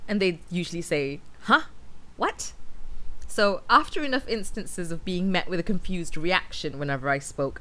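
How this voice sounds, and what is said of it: British accent with Mancunian hints. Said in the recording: “generally British with hints of Mancunian”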